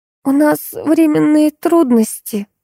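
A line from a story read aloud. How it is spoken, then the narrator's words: Flustered babble. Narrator (Russian): залепетала Алиса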